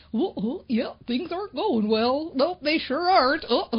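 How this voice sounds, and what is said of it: Silly cartoonish funny voice. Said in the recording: “a Goofy voice or a Donald Duck voice or a little chipmunk voice like Alvin and the Chipmunks ... my best impression ... silly voice? Or in funny voice”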